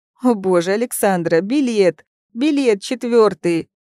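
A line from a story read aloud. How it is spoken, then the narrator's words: Wail. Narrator (Russian): Взвыла Тося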